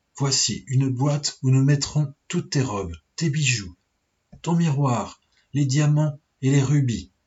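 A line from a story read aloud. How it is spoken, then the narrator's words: Plain. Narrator (French): dit-elle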